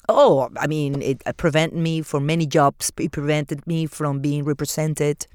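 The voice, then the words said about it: Latina accent in English. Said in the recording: “Being a Latina ... you have an accent ... your accent was a quote-unquote problem”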